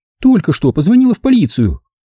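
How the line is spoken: Agitated report. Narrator (Russian): сообщила взволнованно

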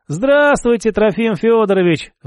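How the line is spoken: Sighing. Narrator (Russian): вздохнул

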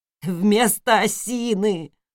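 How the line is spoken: Whimpering. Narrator (Russian): захныкал он

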